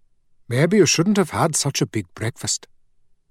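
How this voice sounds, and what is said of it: Lilting Indian accent. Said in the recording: “in a lilting Indian accent”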